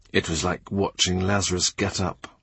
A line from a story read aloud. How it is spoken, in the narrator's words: He whispers to Cranmer